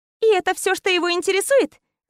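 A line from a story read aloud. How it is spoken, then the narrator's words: Laughing. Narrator (Russian): Засмеялась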